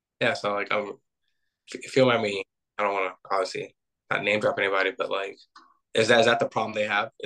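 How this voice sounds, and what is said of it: Strained, fading voice. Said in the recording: “my voice is going a little bit”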